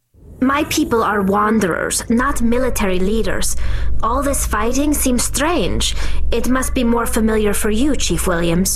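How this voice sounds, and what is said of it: Tali speaking with a distinctive accent. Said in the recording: “I love Tali's voice, her accent... Yeah, the accent.”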